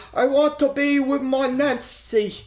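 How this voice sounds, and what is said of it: Imitates another person's accent. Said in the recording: “I will never make that accent again. I'm sorry.”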